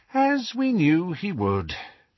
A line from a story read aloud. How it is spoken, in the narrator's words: she sighed